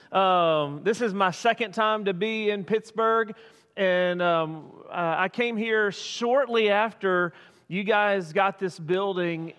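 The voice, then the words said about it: Non-local regional accent. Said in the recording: “my accent betrays me, and so I'm not from around here.”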